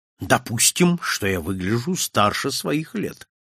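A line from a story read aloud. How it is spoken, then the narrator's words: Calm reply. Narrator (Russian): спокойно отвечал Монпарно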